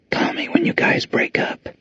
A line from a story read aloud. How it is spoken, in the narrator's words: she said in a whisper everyone could hear